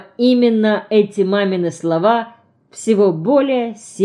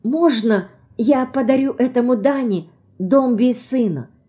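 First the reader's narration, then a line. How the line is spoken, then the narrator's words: Fervent whisper. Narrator (Russian): Я начинаю горячо шептать маме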